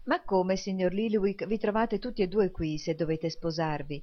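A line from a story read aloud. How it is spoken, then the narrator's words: Plain question. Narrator (Italian): chiese Nicola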